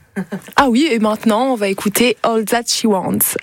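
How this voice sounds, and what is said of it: Puts on an accent. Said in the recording (French): “Avec mon meilleur accent.”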